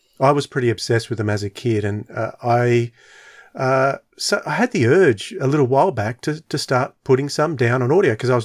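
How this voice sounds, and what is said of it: Australian accent. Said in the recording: “me doing it in an Australian accent”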